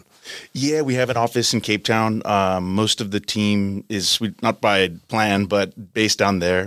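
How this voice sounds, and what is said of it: American accent. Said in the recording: “you're very clearly, judging by your accent, not originally from South Africa. You're an American national.”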